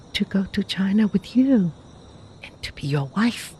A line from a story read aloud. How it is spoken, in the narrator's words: was the softly surprising reply